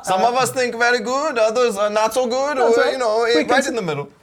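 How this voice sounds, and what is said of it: Unconvincing attempt at Swiss accent. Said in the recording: “I don't know what kind of accent that was, but it was not Swiss”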